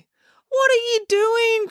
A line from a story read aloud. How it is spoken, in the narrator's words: cried Finn, horrified to see the most beautiful girl he had ever known in real life pinned beneath his violence-prone sister